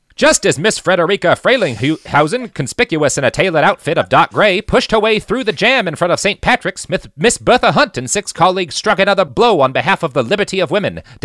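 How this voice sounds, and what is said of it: Old-timey New York journalist accent. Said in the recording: “I'm gonna try to do my best New York old-timey journalist accent”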